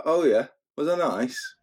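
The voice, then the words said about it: Fairly good put-on Mancunian accent. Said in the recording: “I appreciate that Mancunian accent there. I think that's actually quite a good one.”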